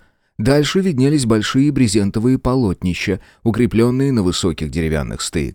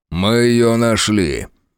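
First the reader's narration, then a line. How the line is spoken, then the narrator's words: Grim announcement. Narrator (Russian): мрачно объявил Фрейзер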